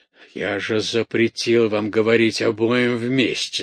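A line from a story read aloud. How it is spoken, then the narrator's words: Plain. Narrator (Russian): сказал князь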